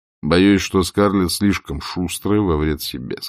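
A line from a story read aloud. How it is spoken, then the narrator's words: Plain. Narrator (Russian): сказал он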